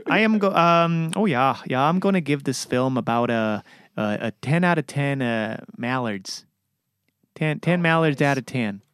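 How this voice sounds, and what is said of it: Put-on Minnesota accent. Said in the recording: “I'll try to do my best Minnesota accent.”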